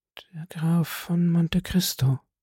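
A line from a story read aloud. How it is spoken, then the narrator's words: Murmured. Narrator (German): murmelte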